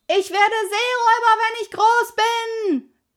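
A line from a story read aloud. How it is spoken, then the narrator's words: Calling out. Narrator (German): rief Pippi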